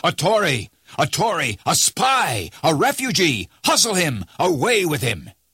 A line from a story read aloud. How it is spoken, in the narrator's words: a general shout burst from the bystanders